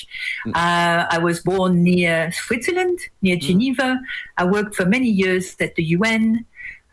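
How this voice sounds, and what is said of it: French accent. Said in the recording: “as my accent gives away, I am originally French.”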